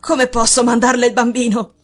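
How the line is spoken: Exclamation. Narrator (Italian): esclamò

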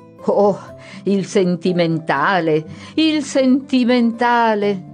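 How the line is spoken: Several voices exclaiming. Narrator (Italian): esclamarono due o tre

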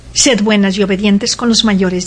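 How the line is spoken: Plain. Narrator (Spanish): dijo

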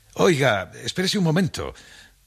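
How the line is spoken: Shouting. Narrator (Spanish): gritarle

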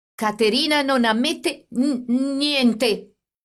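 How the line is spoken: Stammering. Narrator (Italian): egli disse balbettando

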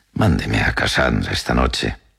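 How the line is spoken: Consoling tone. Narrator (Spanish): dijo en un tono consolador

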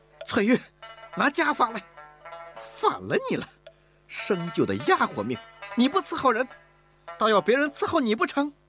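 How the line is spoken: Exasperated shout. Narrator (Chinese): 乌雅氏不曾想在小姑娘这儿遇到了麻烦，他愣了一会儿，才忍无可忍地喊道

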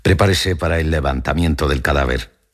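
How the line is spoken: Plain. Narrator (Spanish): dijo el alcalde

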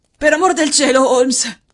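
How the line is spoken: Hoarse exclamation. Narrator (Italian): esclamò con voce roca

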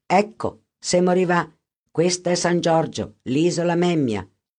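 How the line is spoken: Plain, boatman. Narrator (Italian): disse il barcaiolo

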